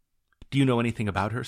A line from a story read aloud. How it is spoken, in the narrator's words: said the student eagerly